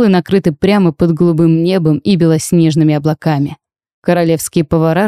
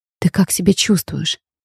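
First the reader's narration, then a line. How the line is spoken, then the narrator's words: Quiet question. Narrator (Russian): тихо спросила я супруга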